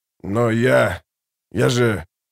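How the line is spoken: Broken, forced out. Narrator (Russian): Гурни, совершенно сломленный, выдавил

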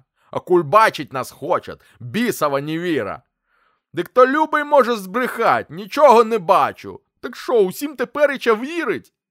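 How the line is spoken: Shout. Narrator (Russian): Вахмистер выкрикнул

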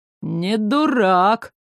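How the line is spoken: Approving drawl. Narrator (Russian): с неприкрытым одобрением протянул министр

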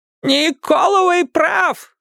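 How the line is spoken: Yell. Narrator (Russian): заорала она

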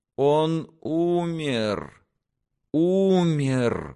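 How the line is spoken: Father groaning in anguish. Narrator (Russian): в муке простонал отец

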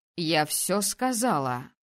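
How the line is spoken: Growl. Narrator (Russian): рыкнула принцесса

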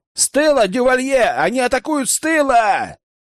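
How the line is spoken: Urgent shout. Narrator (Russian): крикнул Рэм

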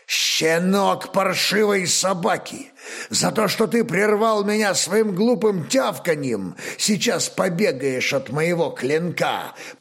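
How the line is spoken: Growling. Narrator (Russian): Прорычал он

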